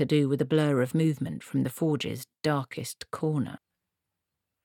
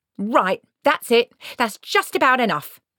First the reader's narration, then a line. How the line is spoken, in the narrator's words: shouted Esk's mother